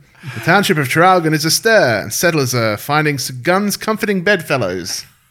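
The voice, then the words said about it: Old-timey radio announcer voice. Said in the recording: “It needs to be said in that old-timey radio voice.”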